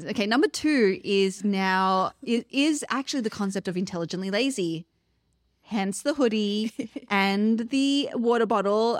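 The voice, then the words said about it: Australian accent. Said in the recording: “we're the only Aussies ... we're going to bring the Aussie ... Definitely not a sexy accent, but it's a fun and enjoyable accent”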